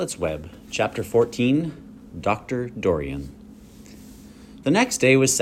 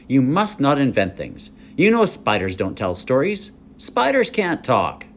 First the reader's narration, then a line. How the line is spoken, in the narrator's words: said sternly